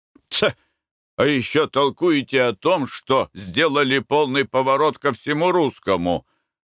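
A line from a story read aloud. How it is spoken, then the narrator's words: Through gritted teeth. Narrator (Russian): процедил сквозь зубы Николай Иванович, наставительно заметил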